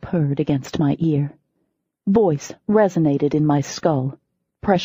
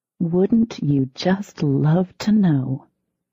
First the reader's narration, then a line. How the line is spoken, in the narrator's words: I purred back